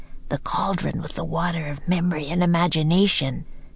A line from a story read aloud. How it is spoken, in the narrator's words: whispered Jack